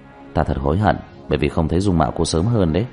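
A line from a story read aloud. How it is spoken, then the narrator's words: Sighing, deliberately laughing. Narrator (Vietnamese): Diệp Thiếu Dương thở dài, cố ý cười nói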